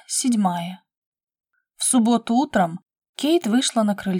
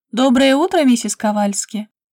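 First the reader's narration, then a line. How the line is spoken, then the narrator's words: Cheerful. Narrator (Russian): весело машет Кейт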